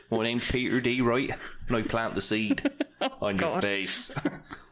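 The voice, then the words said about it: Put-on farmer voice. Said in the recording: “I put on a fucking farmer voice”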